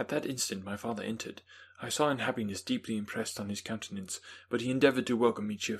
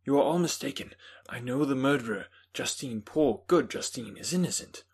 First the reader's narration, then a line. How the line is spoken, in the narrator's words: I replied earnestly